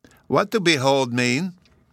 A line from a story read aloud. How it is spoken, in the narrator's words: said Bruno